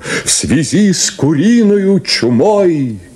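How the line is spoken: Loudspeaker laughing, wailing. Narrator (Russian): хохотал и плакал, как шакал рупор

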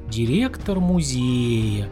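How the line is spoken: Singsong. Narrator (Russian): нараспев произнес он

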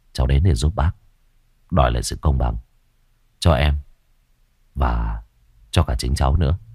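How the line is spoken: Young man, plain. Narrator (Vietnamese): Người thanh niên nói

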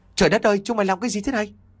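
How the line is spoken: Loud shout. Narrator (Vietnamese): Hạnh quát lớn

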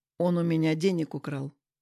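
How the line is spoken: Calm. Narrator (Russian): спокойно сказал я

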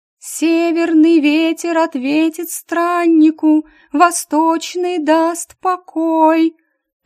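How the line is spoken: Near-singing ringing young voice. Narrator (Russian): почти пропела Сибу звонким молодым голосом

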